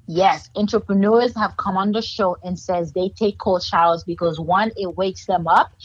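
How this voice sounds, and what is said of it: Haitian accent. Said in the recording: “my Haitian accent won't let me say certain things.”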